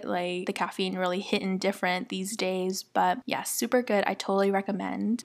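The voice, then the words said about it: Hyped-up, energetic voice. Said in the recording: “I don't know if you can tell by my voice, but I'm like really hyped up after it.”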